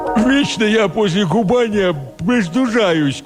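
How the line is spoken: Nasal complaining. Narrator (Russian): гнусаво посетовала она

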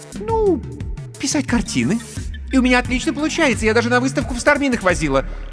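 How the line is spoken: Hurried speech. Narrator (Russian): торопливо добавила Людка

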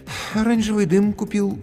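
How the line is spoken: Sigh. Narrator (Russian): вздохнул администратор

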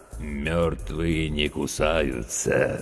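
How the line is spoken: Creaky, grinning voice. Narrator (Russian): скрипучим голосом проговорил ухмыляющийся Серега

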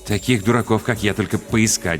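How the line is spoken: Muttering. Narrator (Russian): бормотал Макс

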